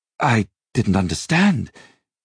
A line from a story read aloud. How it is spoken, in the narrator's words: he stammered, feeling as if he were the one suddenly under obligation